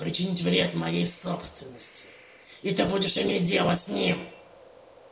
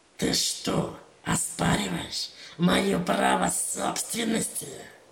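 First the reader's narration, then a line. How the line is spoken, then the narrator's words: Growled. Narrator (Russian): Прорычала Гарона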